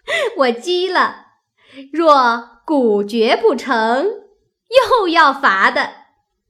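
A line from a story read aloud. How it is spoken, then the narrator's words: Laughing. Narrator (Chinese): 湘云笑道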